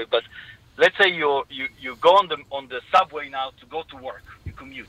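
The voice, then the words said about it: Israeli-accented English. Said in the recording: “from my accent you can hear I'm Israeli”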